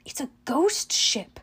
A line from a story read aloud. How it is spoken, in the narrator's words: murmured